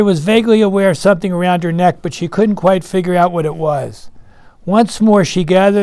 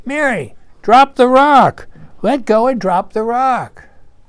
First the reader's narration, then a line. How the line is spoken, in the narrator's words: heard all these voices shouting to her